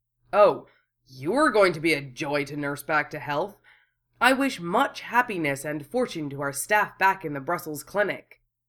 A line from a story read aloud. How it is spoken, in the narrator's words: Wufei growled